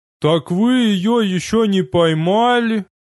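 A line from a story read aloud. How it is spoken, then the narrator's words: Howling. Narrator (Russian): взвыл тезка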